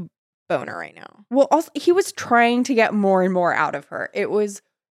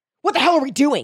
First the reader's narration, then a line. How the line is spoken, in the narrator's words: He barked